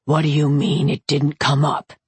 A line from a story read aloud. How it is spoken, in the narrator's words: Curran growled